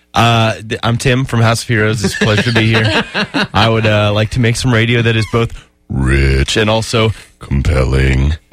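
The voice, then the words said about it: Polished radio announcer voice. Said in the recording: “That's a really good radio voice.”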